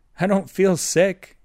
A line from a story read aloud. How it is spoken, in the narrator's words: Chet said with a nervous laugh